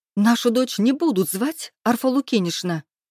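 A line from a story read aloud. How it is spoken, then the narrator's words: Whispered squeal. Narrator (Russian): Взвизгнула я, но постаралась сделать это шепотом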